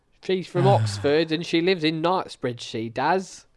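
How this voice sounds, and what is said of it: Put-on Cockney accent. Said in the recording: “Cockney geezer”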